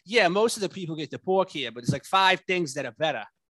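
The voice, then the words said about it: Thick put-on Boston accent. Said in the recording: “this really really thick Boston accent ... it was like really thick”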